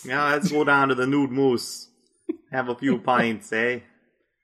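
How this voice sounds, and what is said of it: Put-on accent that keeps shifting. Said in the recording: “That was a dynamic, evolving accent.”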